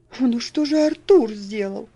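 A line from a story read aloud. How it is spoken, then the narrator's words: Pleading. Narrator (Russian): взмолился Герберт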